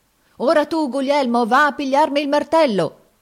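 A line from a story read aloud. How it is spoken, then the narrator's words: Shouting. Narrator (Italian): gridava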